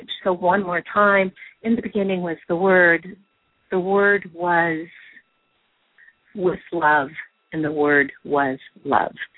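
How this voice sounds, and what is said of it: Shaky voice. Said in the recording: “I'm hearing it in my shaky voice”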